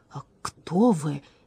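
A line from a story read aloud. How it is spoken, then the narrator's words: Stunned, disbelieving breath. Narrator (Russian): не веря своим глазам, выдохнул дворецкий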